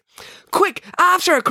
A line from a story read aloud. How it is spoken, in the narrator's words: cried April, sprinting after Maya herself